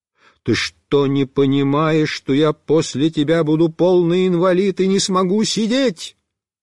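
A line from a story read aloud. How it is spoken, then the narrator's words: Outright yelling. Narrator (Russian): Я прямо заорал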